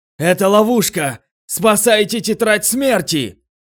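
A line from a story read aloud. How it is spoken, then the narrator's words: Shouted. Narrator (Russian): закричал Суруга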